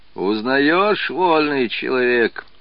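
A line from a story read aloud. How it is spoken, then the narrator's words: Muffled question, laughing. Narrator (Russian): глухо спросил приказчик и засмеялся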